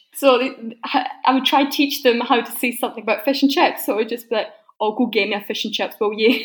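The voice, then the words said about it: Scottish accent. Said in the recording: “I don't think you've lost your Scottish accent. I can definitely hear it in there ... It was stronger.”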